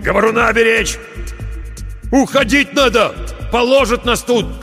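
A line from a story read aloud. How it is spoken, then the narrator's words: Shout. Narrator (Russian): крикнул он проводнику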